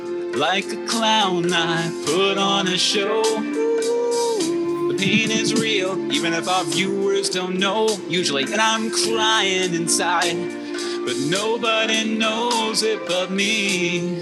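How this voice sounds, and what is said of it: Warbling character singing voice. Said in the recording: “my warbling. It was a character voice. It was a character voice.”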